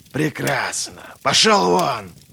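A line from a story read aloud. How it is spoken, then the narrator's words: Hissed. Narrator (Russian): прошипел Глокта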